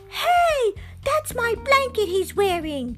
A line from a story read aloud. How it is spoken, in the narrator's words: Linus cried